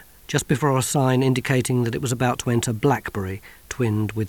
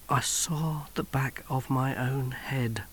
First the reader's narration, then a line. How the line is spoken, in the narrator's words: whispered Johnny